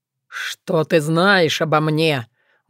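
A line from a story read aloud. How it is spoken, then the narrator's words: Menacing, offended wail. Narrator (Russian): Грозно и вместе с тем обиженно возопил кляксовый монстр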